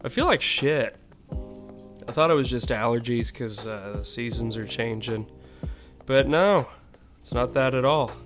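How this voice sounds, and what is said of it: Sick, congested head-cold voice. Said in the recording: “I'm sure you can tell by my voice, I've been sick for a little bit ... some sort of real bad head cold”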